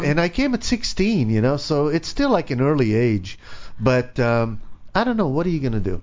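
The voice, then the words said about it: Israeli accent. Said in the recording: “that accent doesn't sound... ... I'm from Israel. ... It's not a California accent.”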